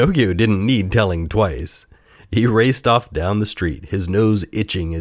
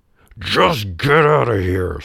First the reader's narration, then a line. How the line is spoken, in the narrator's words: snarled the man